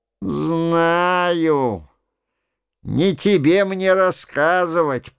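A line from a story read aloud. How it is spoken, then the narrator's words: Grumbling. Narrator (Russian): проворчал Ретник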